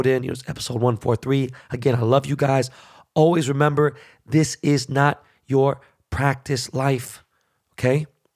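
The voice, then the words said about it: Hoarse, strained, failing voice. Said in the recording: “My throat is so fucked up. My voice is gone.”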